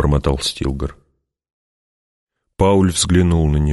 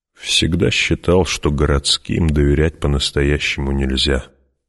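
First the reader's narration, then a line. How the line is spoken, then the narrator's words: Grumbled. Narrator (Russian): буркнул Стилгар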